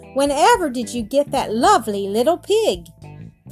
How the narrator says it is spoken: Bear exclaimed

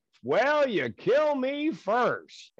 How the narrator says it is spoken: loud enough for everybody to hear, I yell back

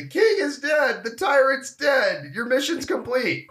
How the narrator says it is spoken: Hassan, though, apparently ran up to the radio and screamed

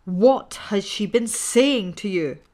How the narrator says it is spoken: screamed the old man furiously

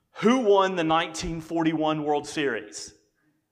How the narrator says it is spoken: suddenly the other man yells out

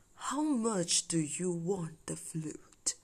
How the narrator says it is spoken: The wizard was touched by Candy's innocence and he asked in a low voice

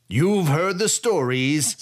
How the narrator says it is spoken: Sai cried out

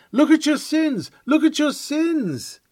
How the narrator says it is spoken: Jeeringly, the tempters cry

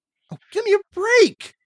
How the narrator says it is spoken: You laugh

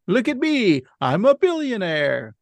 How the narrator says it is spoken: Homer shouting

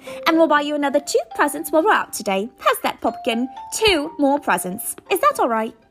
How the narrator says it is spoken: she said quickly

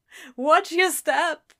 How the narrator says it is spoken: Crowley groaned, starting low and growing in intensity

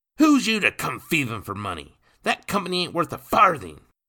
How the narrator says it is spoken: Nathan shouted

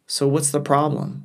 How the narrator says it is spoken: asked

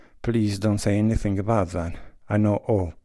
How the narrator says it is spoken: she said, flushing hotly

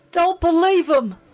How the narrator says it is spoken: Jen cried

